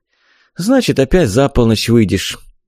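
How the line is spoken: Resigned sigh. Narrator (Russian): обреченно вздохнула она

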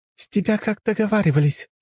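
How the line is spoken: Giggling. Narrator (Russian): хихикнула рогатая

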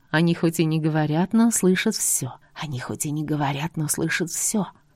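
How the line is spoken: Whisper. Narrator (Russian): прошептала она

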